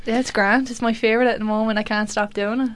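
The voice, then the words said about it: Put-on Irish accent, done well. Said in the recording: “her favourite accent at the moment is Irish... That's a really good accent. That's really good.”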